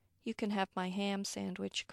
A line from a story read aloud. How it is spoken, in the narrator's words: Chris says